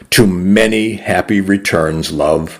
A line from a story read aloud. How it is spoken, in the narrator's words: I said